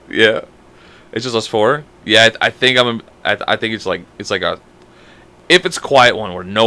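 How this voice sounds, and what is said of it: Usual voice. Nothing is said of it.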